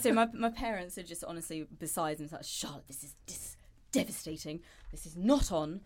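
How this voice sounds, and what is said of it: Posh British accent, Queen's English. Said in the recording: “You have this like typical British accent that I'm not gonna lie to you. It sounds like you're royalty. ... it's the Queen's like, English.”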